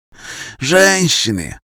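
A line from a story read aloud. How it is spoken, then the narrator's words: Sigh. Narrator (Russian): вздохнул князь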